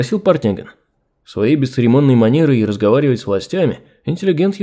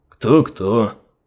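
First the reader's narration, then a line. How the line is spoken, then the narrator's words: Gruff grumble. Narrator (Russian): буркнул Поликарт Поликартыч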